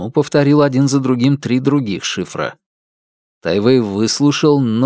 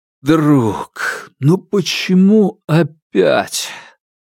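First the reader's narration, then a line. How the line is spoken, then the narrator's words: Breathed out. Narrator (Russian): Тайвэй выдохнул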